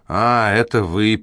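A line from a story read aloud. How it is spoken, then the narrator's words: Grumbling mutter. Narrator (Russian): пробурчал Седрик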